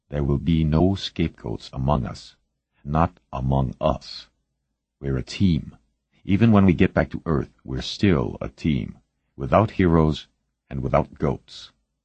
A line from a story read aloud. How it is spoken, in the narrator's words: Calmly, quietly, he said